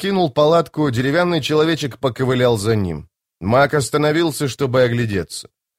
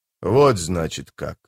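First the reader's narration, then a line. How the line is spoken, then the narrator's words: Muttering. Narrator (Russian): пробормотал быстрый Бен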